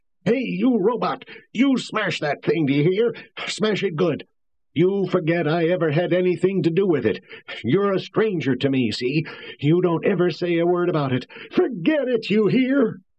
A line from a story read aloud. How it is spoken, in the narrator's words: He was yelling wildly and hoarsely